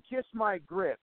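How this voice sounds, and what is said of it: Southern belle accent. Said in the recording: “That Southern Belle voice you just did ... That's perfect. It's perfect.”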